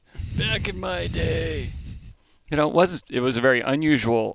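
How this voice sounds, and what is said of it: Put-on old man voice. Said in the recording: “my old man voice.”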